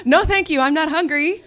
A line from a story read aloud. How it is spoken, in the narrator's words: said, laughing nervously